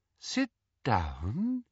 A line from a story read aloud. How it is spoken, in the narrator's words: said Umbridge in her soft, silky voice